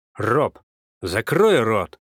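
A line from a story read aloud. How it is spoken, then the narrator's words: Angry bark. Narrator (Russian): гаркнул на меня дядя Коля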